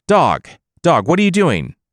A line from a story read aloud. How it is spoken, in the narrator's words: the Jade Emperor called out